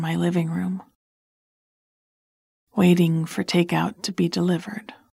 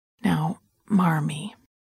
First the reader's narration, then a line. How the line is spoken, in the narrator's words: I said, leaning down to talk quietly to her